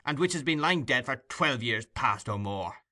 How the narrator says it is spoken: cried Monks impatiently

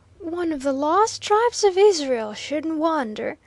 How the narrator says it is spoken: drawlingly volunteered Waldo, stifling a yawn

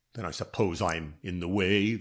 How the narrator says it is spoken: the other muttered

